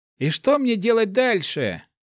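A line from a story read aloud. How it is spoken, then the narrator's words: Shout. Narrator (Russian): крикнул Март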